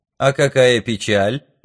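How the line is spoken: Mocking young man. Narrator (Russian): насмешливо откликнулся парень

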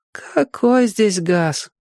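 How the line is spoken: Grown-up sigh. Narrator (Russian): по-взрослому вздохнула Соня

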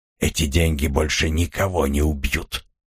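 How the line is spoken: Hoarse voice. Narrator (Russian): Сильвен хрипло произнес

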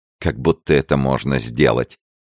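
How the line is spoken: Laughing. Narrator (Russian): рассмеялась она

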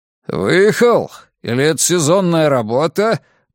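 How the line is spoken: Growled. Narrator (Russian): прорычал Драк Кайнен

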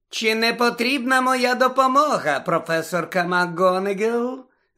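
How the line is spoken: Poisonously sweet question. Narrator (Ukrainian): запитала Амбридж своїм отруйно-солодким голосом

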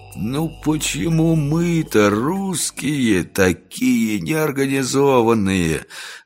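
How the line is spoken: Envious groan. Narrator (Russian): завистливо простонал генерал Лошкомоев

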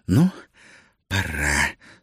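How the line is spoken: Whispered through clenched teeth. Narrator (Russian): сквозь зубы прошептала Гера

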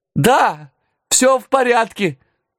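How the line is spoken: Thin shout, sneezing. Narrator (Russian): тонко прокричал я, отчихиваясь от гари

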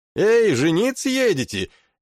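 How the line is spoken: Shouted from passing vessel. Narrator (Russian): крикнули нам с проходящей мимо эйкосоры

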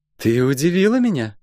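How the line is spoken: Timid chuckle. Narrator (Russian): робко хмыкнула Метифа

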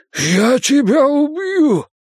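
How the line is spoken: Hoarse wheeze. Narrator (Russian): прохрипел он

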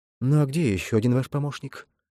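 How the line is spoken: Whisper. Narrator (Russian): шепотом спросил он

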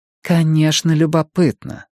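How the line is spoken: Sigh. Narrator (Russian): вздохнула Мия

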